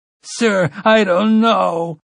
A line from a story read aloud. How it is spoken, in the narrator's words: Waverly sobbed